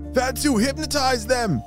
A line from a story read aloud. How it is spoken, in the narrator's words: shouted Sebastian